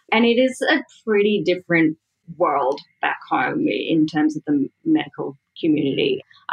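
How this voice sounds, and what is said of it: Australian accent. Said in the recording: “I'm Australian, as my accent is extremely evident.”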